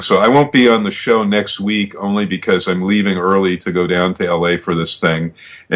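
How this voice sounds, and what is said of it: Hoarse, losing voice. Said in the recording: “I'm a little hoarse, too, just like Evan, in terms of loss of voice”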